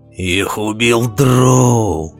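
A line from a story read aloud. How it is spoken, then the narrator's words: Growling. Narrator (Russian): прорычал он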